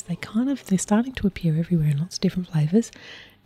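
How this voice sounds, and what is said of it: Whispering. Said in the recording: “I was whispering ... I was doing my sotto voce”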